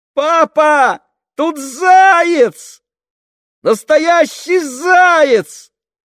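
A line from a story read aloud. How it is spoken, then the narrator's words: Excited shout. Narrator (Russian): закричала она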